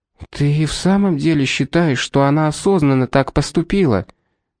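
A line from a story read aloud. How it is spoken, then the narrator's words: Whisper. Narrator (Russian): прошептала Шарлотта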